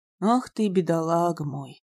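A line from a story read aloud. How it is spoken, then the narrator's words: Tender low rumble. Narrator (Russian): ласково прогудел он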